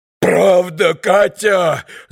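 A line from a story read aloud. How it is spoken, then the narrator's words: Sudden yell. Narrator (Russian): завопил вдруг Митя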